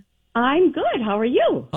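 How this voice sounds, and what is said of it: Chipper, upbeat phone voice. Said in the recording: “Is this your phone voice? ... Or are you always this chipper?”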